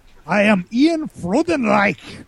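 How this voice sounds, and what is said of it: Put-on German accent. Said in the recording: “That name is so much cooler to pronounce if you use a German accent.”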